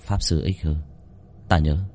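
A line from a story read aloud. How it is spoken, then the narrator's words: Old man sighing. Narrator (Vietnamese): Ông thở dài một hơi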